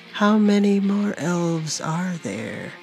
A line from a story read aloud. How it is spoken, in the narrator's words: he asked in a calming voice